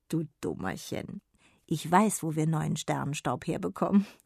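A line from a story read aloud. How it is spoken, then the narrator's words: Grandmother's giggle. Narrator (German): kicherte Oma Dunkelchen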